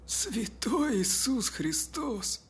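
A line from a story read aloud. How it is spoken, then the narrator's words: Breathless exhale. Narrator (Russian): выдохнул Чип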